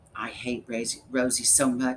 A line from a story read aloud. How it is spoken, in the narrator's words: she hissed in my ear